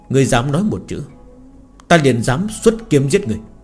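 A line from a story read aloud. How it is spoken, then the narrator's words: Cold. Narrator (Vietnamese): Hắn lạnh lùng nói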